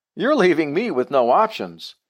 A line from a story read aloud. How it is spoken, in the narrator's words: my heart pounding and yelling at the guy on the phone